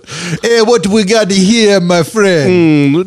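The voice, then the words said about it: Put-on Rastafarian Jamaican accent. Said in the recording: “throw a Rastafarian vibe in that ... I'm losing my fucking accent”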